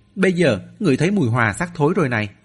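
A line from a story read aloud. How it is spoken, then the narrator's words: Delighted exclamation. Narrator (Vietnamese): Mạnh Cường hớn hở kêu lên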